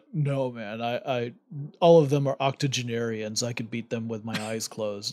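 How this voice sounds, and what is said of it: Poor imitation of a deep-voiced actor. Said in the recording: “that's a terrible Vin Diesel impression. My voice does not go as nearly as low as Vin Diesel's.”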